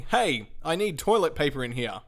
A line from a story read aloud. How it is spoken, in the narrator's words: yelled very loudly